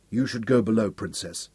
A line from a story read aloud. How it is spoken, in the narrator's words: he told her softly